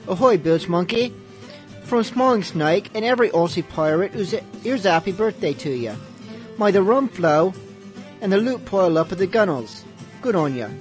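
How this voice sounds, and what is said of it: Amateur put-on Australian accent. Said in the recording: “talking in an Australian accent. I'll try to do an Australian accent, but I have no practice. And no talent ... he probably sounded much more manly than I did”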